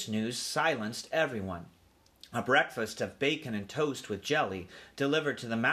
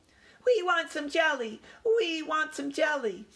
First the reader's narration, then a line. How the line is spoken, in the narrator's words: all the little cousins began to squeak